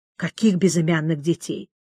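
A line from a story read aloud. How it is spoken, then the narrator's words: Muttering under breath. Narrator (Russian): Иудей, бормоча под нос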